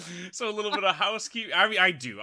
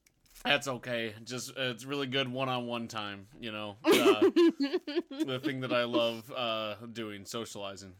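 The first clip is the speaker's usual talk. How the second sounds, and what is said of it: Sarcastic, deadpan tone. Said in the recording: “you sound just absolutely chuffed ... I sound sarcastic”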